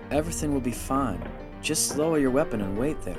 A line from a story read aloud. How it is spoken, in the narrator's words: the Sherman probe said softly